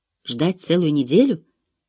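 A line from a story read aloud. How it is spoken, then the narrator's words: Exclamation. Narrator (Russian): воскликнула Мелина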